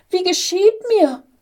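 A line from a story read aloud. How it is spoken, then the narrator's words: Small angel crying fearfully. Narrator (German): rief der kleine Engel voller Furcht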